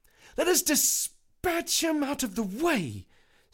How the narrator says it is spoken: snapped Mr

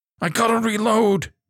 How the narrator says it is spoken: she cried

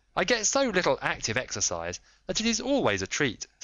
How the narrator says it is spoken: said he

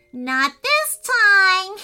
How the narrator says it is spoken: giggled the rain pixies nastily

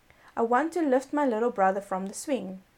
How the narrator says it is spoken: cried she

